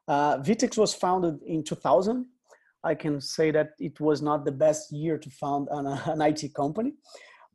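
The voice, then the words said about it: Brazilian accent. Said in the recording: “we can notice my accent. I'm from Brazil.”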